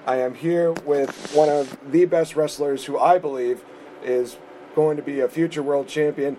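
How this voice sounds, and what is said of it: Slightly hoarse voice. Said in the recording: “I'm a little bit hoarse because I'm had my head screaming off on SmackDown last night”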